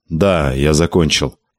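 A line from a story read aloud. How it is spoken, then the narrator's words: Grim. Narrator (Russian): мрачно сказал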